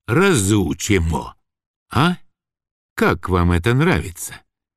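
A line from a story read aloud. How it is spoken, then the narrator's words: Muttering to himself. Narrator (Russian): сам себе бормотал Василиса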